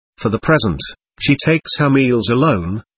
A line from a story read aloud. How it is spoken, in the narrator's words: answered